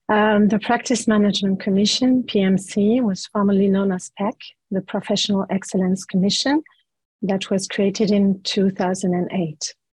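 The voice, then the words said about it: Recovering, slightly impaired voice. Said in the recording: “sorry for my voice. I've just recovered it this morning.”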